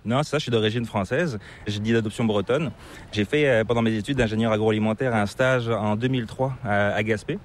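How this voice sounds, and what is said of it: Slight hard-to-place accent, not Québécois. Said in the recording (French): “tu as une petite pointe d'accent qui est assez difficile de deviner ... c'est pas l'accent québécois”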